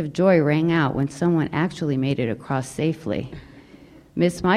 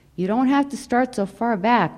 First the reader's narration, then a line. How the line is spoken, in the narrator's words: Miss Michaels yelled at me